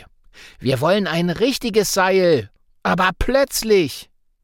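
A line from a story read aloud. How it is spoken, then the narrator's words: Calling out. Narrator (German): ruft Sigi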